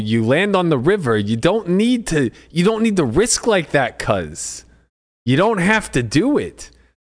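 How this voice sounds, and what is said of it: Imitates another person's voice. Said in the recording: “my best cuz impersonation”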